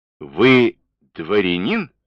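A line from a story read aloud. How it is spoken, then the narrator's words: Plain. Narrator (Russian): спросил он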